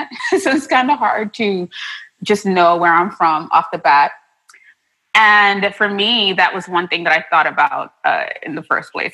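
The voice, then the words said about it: Mixed Trinidadian and New York accent. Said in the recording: “I had an accent, because I'm originally from Trinidad and Tobago ... I came to New York ... So I definitely have a mixed match of an accent.”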